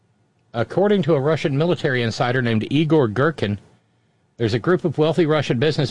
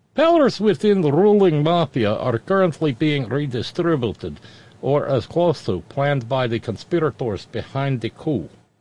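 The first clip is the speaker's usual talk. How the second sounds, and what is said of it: Put-on Russian accent. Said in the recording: “Oh, I get to use my Russian accent for this.”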